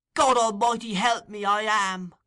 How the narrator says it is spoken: cried the girl passionately

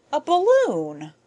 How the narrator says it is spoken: exclaimed

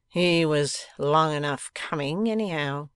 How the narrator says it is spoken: grumbled Fledgeby

